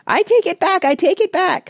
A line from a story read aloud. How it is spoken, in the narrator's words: squeaked Randy in a cowardly way